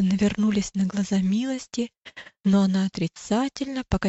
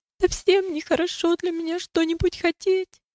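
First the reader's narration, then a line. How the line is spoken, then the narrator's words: Sobbing. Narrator (Russian): ответила милость, всхлипывая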